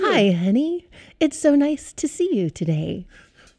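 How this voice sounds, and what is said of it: Smooth radio voiceover voice. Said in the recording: “beautiful voiceover voice ... Your evening radio voice.”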